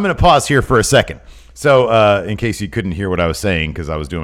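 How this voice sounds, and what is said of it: Usual voice. Nothing is said of it.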